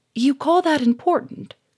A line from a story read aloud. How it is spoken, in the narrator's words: cried Germaine